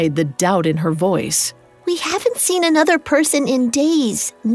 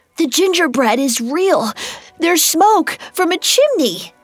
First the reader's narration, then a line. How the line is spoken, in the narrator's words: Between gasps, he explained